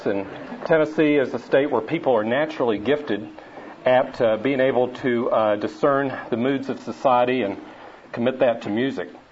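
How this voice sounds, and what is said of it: Tennessee Southern accent. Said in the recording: “I'm from Tennessee so that you can bond with my accent”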